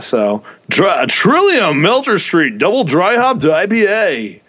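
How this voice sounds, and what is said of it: Radio announcer voice. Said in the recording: “That was my radio voice right there.”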